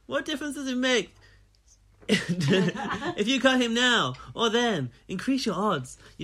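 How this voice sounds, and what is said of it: Impression of Paris's accent. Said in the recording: “What accent has Paris got now? ... I came up with a conclusion of how Paris talks”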